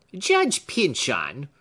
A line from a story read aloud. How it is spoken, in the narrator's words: answered her cousin angrily